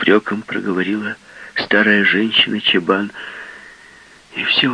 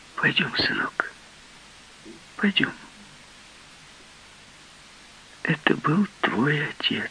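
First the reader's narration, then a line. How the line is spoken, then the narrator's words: Soft, gentle. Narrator (Russian): тихо сказала она ему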